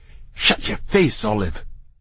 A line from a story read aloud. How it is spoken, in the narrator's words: muttered Tofu